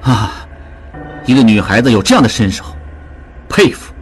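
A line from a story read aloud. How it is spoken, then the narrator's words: Feigned admiration. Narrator (Chinese): 应季假意赞叹道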